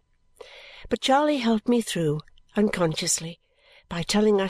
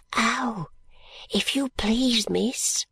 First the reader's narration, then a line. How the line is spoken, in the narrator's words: said in a whisper, with her eyes their roundest and largest